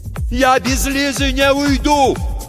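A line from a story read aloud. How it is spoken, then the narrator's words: Shout. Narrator (Russian): крикнул Тихон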